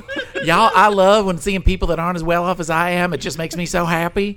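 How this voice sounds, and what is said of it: Put-on southern accent. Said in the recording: “just got a southern accent for some reason”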